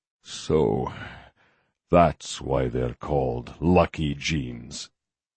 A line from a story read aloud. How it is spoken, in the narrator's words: he murmured